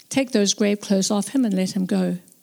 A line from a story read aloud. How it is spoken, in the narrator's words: Jesus said calmly